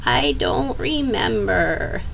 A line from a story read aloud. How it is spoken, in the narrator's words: whined